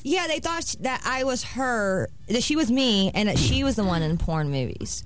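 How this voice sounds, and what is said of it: Puerto Rican accent. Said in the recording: “Sicilian, Puerto Rican ... so mom, that's the accent I hear ... on mom ... Is Puerto Rican”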